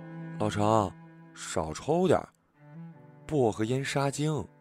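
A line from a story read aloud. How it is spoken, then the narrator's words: Quick, quiet reminder. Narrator (Chinese): 为了打破这尴尬的沉默，连忙小声的提醒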